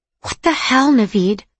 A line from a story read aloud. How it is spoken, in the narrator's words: I hissed